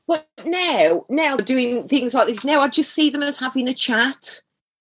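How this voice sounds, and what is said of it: Black Country English accent. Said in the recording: “I would be conscious of my accent and I would be trying to cover it ... People know you come from the black country. It doesn't matter how you try and hide it. It's going to come through.”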